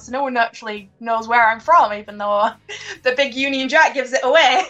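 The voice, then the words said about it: English-New Zealand accent, slightly Irish-sounding. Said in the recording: “your accent sounds almost just a shy bit, a wee bit Irish. Just a little bit ... the mix of being English and now Kiwi”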